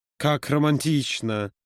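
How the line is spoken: Purring, muffled. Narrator (Russian): промурлыкал Юра, утыкаясь лицом ему в грудь

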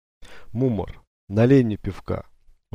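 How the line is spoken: Sighing. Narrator (Russian): вздохнул, обратился я

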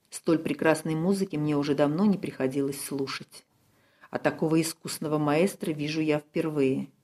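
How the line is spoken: Quiet whisper. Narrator (Russian): месье Дьяко тихо прошептал

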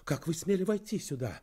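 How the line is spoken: Indignant exclamation. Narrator (Russian): воскликнула она с возмущением

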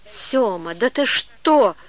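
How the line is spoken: Indignant exclamation. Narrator (Russian): Возмущенно воскликнула она

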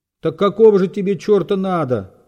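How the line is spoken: Shouting from above. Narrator (Russian): закричал сверху Разумихин

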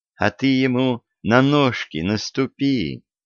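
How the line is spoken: Gentle advice. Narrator (Russian): ласково посоветовала девушка

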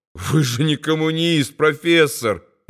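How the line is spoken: Laughing. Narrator (Russian): рассмеялся Рудольф

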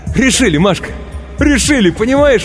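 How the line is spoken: Ecstatic shouting. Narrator (Russian): восторженно кричал он

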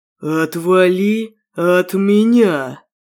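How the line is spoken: Through gritted teeth. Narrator (Russian): Процедил сквозь зубы вестник

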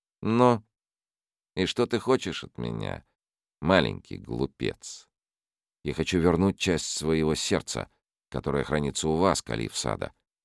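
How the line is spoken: Calm boy. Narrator (Russian): спокойно ответил мальчик

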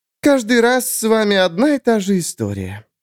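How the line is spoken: Sighing. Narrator (Russian): вздохнула Эрия

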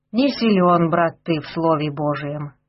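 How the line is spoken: Sighing priest. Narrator (Russian): вздохнул батюшка

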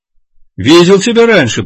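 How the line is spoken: Shouted over engine roar. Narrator (Russian): прокричал водитель, перекрывая рев мощного двигателя

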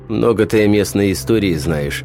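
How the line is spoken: Snorted reply. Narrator (Russian): хмыкнул тот в ответ

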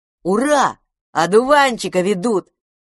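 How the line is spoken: Shout. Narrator (Russian): закричал Пипус

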